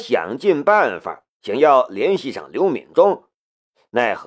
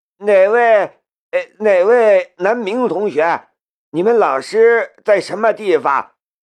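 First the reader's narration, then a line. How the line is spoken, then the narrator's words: Loud. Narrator (Chinese): 他大声道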